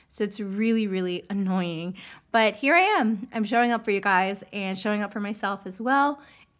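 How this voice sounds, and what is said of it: Congested, raspy voice. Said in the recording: “my voice sounds a little congested, raspy. ... I have this lingering cough / congestion, sore throat.”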